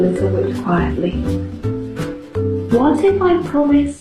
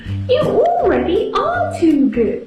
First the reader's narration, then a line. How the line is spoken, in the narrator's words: screamed Mother Witch